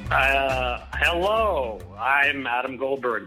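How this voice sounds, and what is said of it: Radio announcer voice. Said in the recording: “doing my radio voice”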